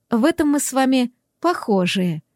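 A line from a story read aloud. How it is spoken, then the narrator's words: Purring young woman. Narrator (Russian): промурлыкала девица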